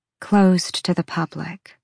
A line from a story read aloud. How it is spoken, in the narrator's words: she purred